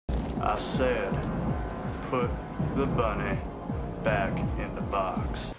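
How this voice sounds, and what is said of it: Exaggerated southern US accent. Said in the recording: “Nicolas Cage in his most southern accent humanly possible”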